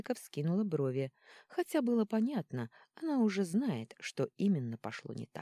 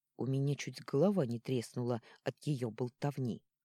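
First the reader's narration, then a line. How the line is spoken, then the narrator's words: Grumbling. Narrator (Russian): буркнул Орнелл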